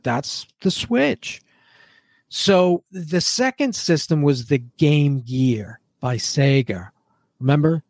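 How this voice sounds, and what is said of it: New England accent, added R sounds. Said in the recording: “that accent ... Sager ... when you grow up in New England, this is what happens, right? You add R's where there are no R's”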